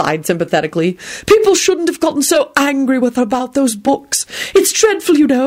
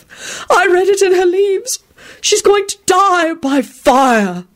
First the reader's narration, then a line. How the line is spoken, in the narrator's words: she sighed tragically